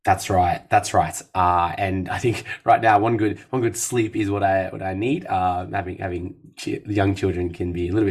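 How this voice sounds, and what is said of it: Slightly hoarse, recovering voice. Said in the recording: “You probably hear it in my voice. ... It's still lingering ... I think my larynx is still kind of recovering”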